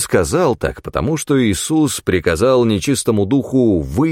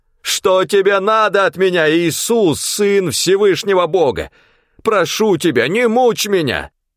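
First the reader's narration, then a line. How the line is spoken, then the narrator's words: Loud wailing shout. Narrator (Russian): с воплем громким голосом закричал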